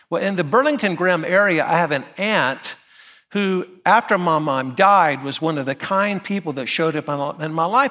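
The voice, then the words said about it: North Carolina accent. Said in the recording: “you already know from my accent ... I'm from a little town called Graham, North Carolina”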